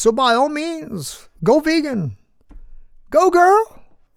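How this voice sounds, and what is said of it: Kamala Harris impression. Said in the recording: “Did I do an effective Kamala? Did I cop the accent?”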